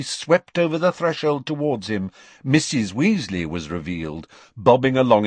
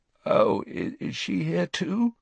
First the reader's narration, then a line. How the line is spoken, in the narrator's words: Harry croaked